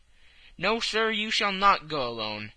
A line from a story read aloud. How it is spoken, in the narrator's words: cried the captain, touched in spite of himself